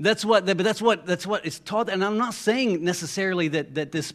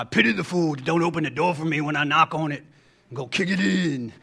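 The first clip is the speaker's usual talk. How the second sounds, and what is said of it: Imitates another person's voice. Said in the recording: “my mr t impression”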